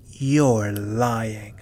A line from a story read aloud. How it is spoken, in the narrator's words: she growled